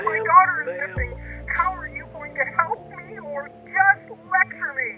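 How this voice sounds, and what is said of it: Angry yelling. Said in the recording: “stop yelling”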